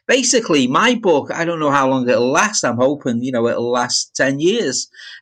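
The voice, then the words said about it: Liverpool accent. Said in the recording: “your accent ... I speak with a Liverpool accent”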